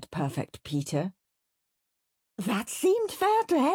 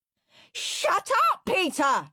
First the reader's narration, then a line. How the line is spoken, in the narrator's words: screamed Henry